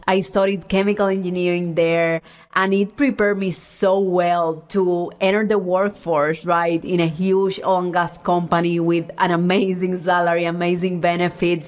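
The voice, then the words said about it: Puerto Rican accent. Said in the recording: “my accent, even though I'm Cuban, honestly, when you hear me talk, like a lot of the accent is Puerto Rico”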